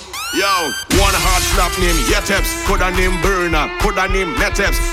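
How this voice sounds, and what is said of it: Trinidadian dialect, rapped. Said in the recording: “I coming with me Trini lingo ... I ain't changing my dialect, my patois.”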